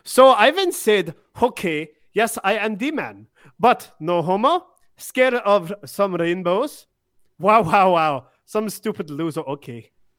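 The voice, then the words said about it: Put-on European accent. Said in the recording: “I like reading it in like a European accent.”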